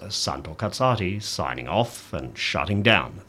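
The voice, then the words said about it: Put-on radio announcer voice. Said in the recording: “here's my radio voice”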